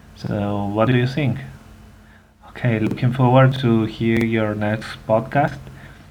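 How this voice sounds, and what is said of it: Non-native English accent. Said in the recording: “my weird accent”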